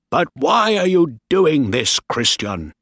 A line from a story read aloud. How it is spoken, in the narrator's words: Bligh shouted angrily